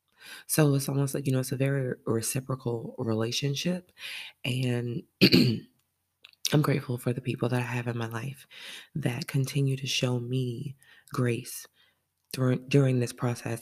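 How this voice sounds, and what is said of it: Sluggish, deeper than normal voice. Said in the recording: “I sound a little sluggish ... my voice sounds a little bit deeper than normal”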